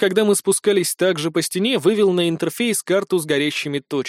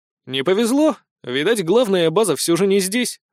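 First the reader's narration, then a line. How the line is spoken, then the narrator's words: Wry snort. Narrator (Russian): хмыкнул я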